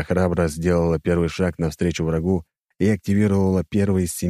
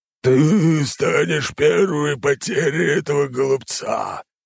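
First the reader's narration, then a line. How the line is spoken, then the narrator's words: Inhuman growl. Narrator (Russian): Нечеловеческим языком прорычало существо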